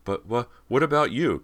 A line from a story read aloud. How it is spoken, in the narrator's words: Cody stammered